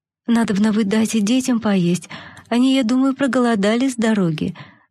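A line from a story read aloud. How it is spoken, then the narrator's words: Timid voice. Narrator (Russian): заметила она несмелым голосом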